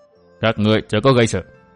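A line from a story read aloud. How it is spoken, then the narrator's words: Cold, low voice. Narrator (Vietnamese): Lão ma đầu lạnh lùng trầm giọng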